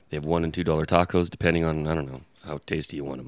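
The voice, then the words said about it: Tired, low sexy voice. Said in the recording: “your tired, sexy voice”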